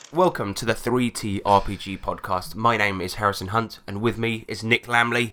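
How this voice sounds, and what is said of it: Voice sounds a bit deep. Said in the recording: “my voice sounds a bit deep, it's because I was drinking last night”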